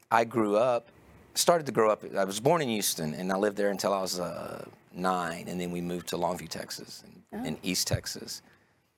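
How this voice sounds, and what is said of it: Texas accent. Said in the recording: “I know I have kind of a Texas accent”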